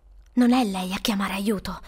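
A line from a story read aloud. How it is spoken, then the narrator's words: Tense whisper. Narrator (Italian): sussurrò, gli occhi stretti allo spasimo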